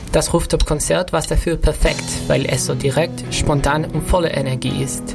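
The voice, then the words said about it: Charming foreign accent in German. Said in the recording (German): “Oh, was für ein charmanter Akzent.”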